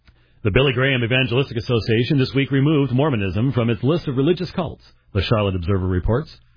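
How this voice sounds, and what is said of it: Radio announcer voice. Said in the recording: “I'm going back to my radio days here ... doing my radio voice here, because I was a radio guy for a long time”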